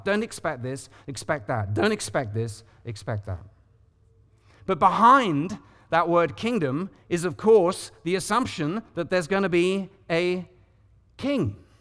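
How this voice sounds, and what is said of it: British accent. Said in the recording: “somebody with a British accent”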